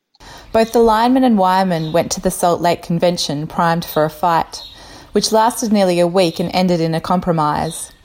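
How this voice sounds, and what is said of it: Australian accent. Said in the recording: “with an Australian accent”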